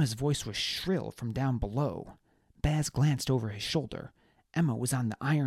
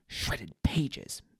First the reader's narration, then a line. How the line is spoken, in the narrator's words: Baz muttered